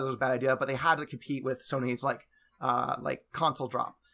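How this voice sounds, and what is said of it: Usual voice. Nothing is said of it.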